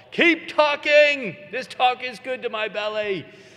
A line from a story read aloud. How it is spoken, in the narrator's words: They'll put their hands to their lips and they'll yell